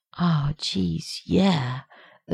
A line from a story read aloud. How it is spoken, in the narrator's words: Rodney murmuring